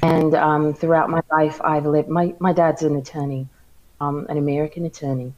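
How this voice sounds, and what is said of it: American-ish accent with odd words. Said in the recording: “I'm trying to locate your accent... it sounds American-ish, but and then other words throws me off”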